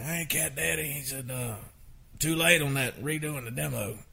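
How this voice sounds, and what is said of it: Imitates another person's voice. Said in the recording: “I'm doing a Craig Wiseman imitation”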